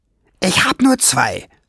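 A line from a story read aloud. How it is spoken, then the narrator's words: Hiss upward. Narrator (German): fauchte Schwefelfell nach oben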